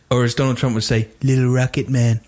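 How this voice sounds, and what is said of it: Imitates another person's voice. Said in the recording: “That's a beautiful impression. ... Very good impression. ... your skin went slightly more orange when you did it”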